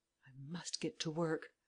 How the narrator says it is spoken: murmured Lupin

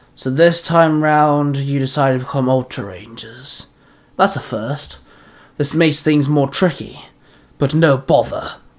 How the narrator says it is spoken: the man growled

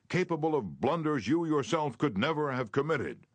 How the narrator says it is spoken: he shouted

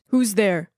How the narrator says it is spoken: Robert shouted

